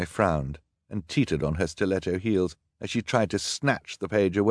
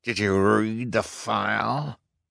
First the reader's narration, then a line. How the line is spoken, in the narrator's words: demanded in a terrible voice